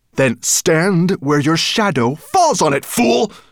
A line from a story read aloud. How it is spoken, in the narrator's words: snapped Nettlebrand